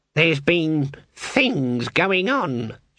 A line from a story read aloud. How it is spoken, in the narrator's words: she said in a cold and deliberate tone